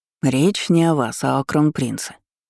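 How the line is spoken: Advisor's displeased explanation. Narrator (Russian): недовольным голосом пояснил советник

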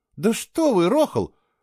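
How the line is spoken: Impatient exclamation. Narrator (Russian): нетерпеливо воскликнула Кейла

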